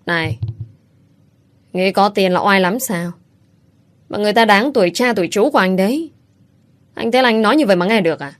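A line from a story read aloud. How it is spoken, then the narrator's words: Harsh, emphatic voice. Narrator (Vietnamese): gằn giọng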